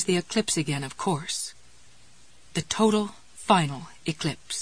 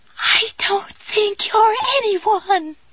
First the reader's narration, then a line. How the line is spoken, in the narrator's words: Raymond Andrew Joubert pipes up in that childish, wavering voice